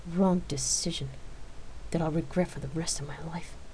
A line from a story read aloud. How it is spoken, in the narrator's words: Rain whispered to herself